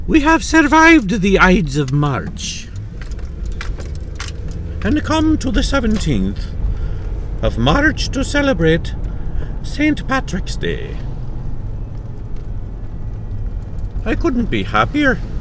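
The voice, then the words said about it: Put-on Irish accent. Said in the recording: “that's the extent of my Irish accent”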